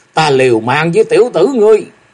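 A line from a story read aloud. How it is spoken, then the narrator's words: Roaring, old man. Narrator (Vietnamese): lão gầm rú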